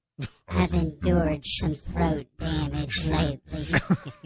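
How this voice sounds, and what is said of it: Disguised, scratchy voice. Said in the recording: “we have disguised her voice ... My voice is a little scratchy.”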